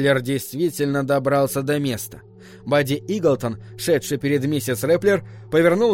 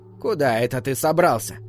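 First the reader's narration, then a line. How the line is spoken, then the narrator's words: Stern, slightly creaky. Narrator (Russian): спросила она строгим, чуть скрипучим голосом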